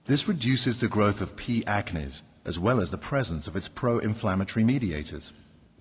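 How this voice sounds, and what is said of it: British accent. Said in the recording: “that guy with his nice British accent”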